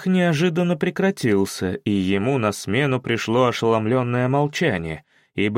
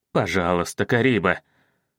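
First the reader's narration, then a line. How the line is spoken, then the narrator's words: Trembling plea. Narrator (Russian): Дрожащим голосом попросил он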